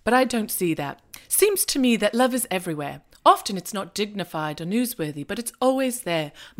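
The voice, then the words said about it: Poor British accent imitating Hugh Grant. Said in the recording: “the voiceover from Hugh Grant ... this terrible British accent”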